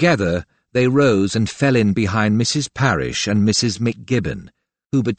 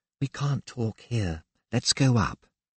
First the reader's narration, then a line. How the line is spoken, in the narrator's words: she murmured